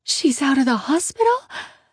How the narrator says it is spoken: Annie gasps

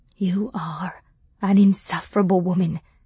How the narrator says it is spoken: he said, barely above a whisper

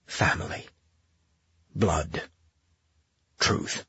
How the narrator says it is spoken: His heart raced, and his mind whispered

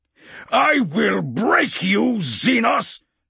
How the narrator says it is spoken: Castor snarled

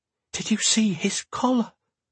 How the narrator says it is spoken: Garen murmured, his voice full of awe

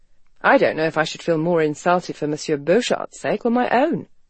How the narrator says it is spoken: Garrett said dryly

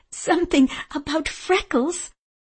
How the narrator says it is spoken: Louisa giggled

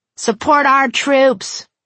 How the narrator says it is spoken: Conan yelled

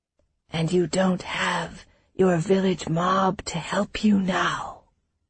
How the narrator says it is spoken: in barely more than a whisper

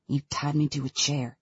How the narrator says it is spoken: he mutters

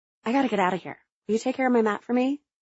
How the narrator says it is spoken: whispered

